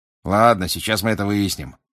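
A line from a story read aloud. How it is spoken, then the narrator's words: Grumbling. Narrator (Russian): проворчал мистер Дигори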